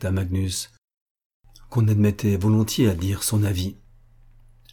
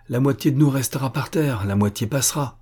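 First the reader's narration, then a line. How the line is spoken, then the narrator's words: Exclaiming. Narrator (French): s'écria M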